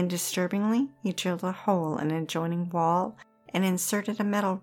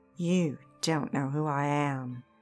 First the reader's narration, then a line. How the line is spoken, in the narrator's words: Harry menacingly told Warren